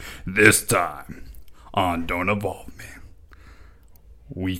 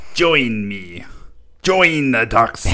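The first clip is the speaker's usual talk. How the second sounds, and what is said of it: Evil emperor character voice. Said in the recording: “our evil voice ... We could do our emperor voice.”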